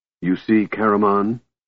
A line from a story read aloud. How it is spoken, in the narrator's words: he said coldly